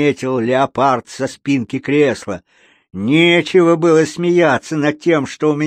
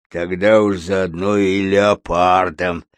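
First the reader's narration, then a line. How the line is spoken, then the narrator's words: Grumbling. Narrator (Russian): проворчал медведь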